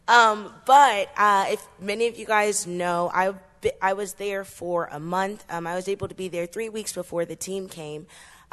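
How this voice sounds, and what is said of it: Voice sounding a little off. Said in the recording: “my voice sounds a little off ... the weather changes affected my voice”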